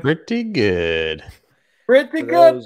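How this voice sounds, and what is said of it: Imitates another person's voice. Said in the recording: “It's my Larry David. ... No, it's my Larry David. ... That was like Brian Kelly trying to do a Louisiana accent. ... Yeah, it was not great.”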